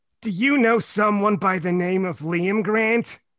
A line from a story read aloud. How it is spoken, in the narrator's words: She blurted